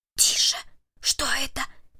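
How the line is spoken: Whispered. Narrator (Russian): прошептал Перри

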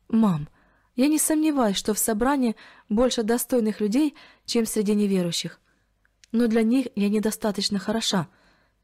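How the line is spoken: Young woman sighing. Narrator (Russian): вздохнула молодая женщина

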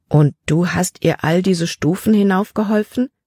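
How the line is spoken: Plain. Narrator (German): fragte Caleb

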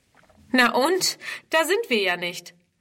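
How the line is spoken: Little girl laughing mockingly. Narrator (German): lacht die Kleine ihren Bruder aus

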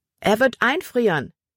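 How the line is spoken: Calling to someone. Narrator (German): rief Libby Emma zu

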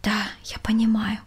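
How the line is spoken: Quiet reply. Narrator (Russian): тихо ответила Валентина

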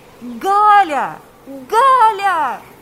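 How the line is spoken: Shouting. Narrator (Russian): кричал Павел

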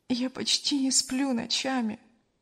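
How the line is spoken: Sigh. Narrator (Russian): вздохнула Кристина

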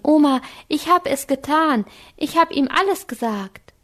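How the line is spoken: Calling out. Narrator (German): rief Anke

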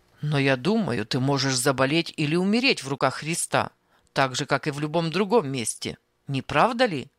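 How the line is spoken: Rough interruption. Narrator (Russian): Грубо прерывал он

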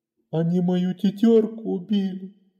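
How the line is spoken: Sobbing. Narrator (Russian): всхлипывал

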